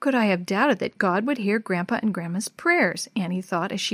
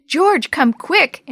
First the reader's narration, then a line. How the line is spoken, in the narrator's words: Annie shouted